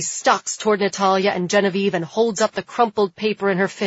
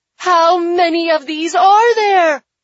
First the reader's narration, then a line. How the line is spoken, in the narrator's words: Catherine shouts